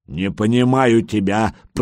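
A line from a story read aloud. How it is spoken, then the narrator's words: Growled, big lad. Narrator (Russian): прорычал детинушка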